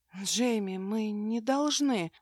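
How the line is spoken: Breathy close whisper. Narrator (Russian): выдохнула прямо в губы

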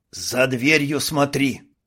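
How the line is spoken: Hiss. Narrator (Russian): прошипел Карл

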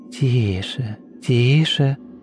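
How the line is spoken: Whisper into ear. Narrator (Russian): прошептал ему на ухо голос Настасьи Филипповны

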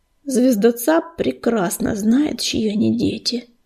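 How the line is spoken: Grim reminder. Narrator (Russian): мрачно напомнил он

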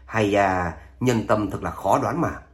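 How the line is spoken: Resigned sigh. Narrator (Vietnamese): Độc Cô Chiến Thiên chỉ có thể bắt đắc dĩ lắc đầu thở dài

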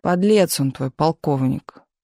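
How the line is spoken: Gloomy. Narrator (Russian): мрачно сказал Миша

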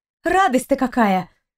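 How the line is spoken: Snapping retort. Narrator (Russian): огрызнулась Кристина

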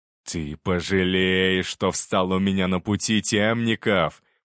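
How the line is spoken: Growled. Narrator (Russian): прорычал он

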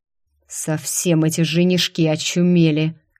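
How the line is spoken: Angry hiss. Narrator (Russian): Злобно прошипел демонюга

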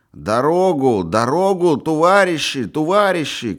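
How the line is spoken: Shouting group. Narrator (Russian): кричали волочившие

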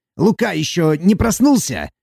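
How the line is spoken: Joyful question. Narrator (Russian): радостно спросил он

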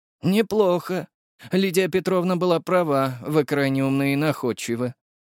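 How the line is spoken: Aristocrat's sigh. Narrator (Russian): вздохнул аристократ

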